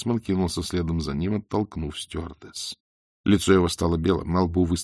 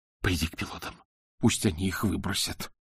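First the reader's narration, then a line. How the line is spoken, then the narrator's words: Whisper. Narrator (Russian): прошептал он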